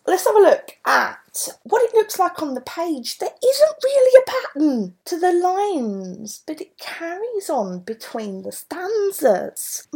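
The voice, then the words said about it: Cockney (Mockney) English accent. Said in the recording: “my Cockney accent, my Mockney ... without it sounding like Del Boy”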